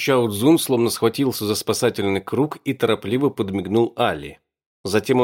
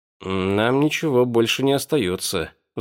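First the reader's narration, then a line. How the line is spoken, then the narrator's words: Sigh. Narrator (Russian): вздохнул я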